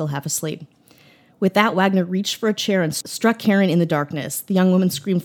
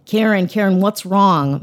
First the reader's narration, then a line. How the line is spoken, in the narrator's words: Marion shouted